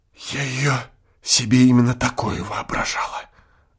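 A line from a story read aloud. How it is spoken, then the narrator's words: Whispered. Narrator (Russian): прибавила она шепотом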